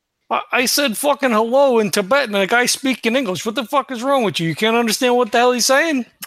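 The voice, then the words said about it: Strong Brooklyn accent. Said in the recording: “your accent, he called it ridiculous ... impressive it was that he was able to keep the accent in different languages ... I'm from fucking Brooklyn”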